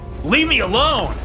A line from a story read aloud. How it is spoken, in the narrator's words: I roared